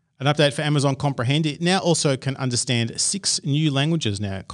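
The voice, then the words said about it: Australian English accent. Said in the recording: “my crazy Australian accent”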